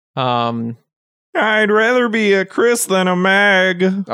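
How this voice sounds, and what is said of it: Impression of Chris Griffin. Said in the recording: “I've never tried to do a Chris impression before. That was my first one.”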